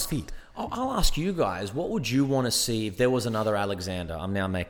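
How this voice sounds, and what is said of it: Usual voice. Nothing is said of it.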